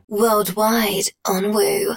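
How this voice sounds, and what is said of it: Sexy voiceover voice. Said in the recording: “Sexy voice”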